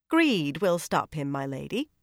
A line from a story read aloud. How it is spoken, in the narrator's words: Mistress Harfour replied calmly